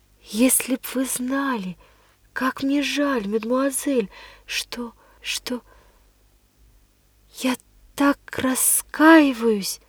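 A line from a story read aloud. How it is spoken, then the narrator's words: Whispered. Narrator (Russian): прошептала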